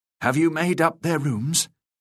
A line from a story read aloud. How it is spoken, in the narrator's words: said, gasping